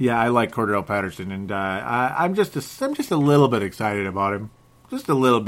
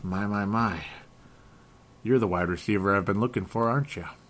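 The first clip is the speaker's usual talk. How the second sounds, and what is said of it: Imitates an old TV detective's voice. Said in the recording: “I was imitating an old detective there... Joe Kenda there. I was just imitating that guy, ID channel”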